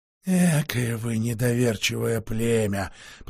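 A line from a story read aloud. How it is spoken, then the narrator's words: Grumbled. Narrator (Russian): проворчал человек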